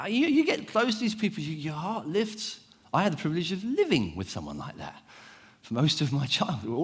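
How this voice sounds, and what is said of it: Usual voice. Nothing is said of it.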